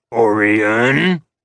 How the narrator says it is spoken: his father growled

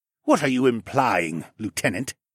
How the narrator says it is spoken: Siskern snapped

